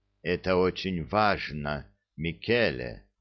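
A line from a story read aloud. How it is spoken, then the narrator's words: Heavy sigh. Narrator (Russian): тяжко вздохнул Чиньо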